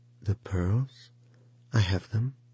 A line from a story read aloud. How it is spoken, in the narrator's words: she answered timidly